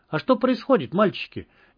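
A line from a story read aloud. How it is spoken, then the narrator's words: Innocent voice. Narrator (Russian): невинным голосом поинтересовалась Марина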